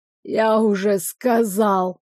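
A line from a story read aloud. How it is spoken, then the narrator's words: Wheezy, hoarse. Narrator (Russian): просипел Гордон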